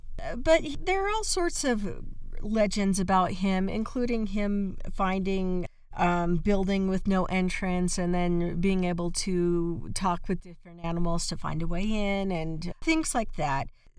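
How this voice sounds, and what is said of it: Cracky voice, hoarse from illness. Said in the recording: “My voice is still kind of cracky from being sick”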